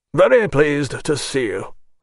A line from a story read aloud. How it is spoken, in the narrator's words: said the general to Nekhludoff, uttering the friendly words in a gruff tone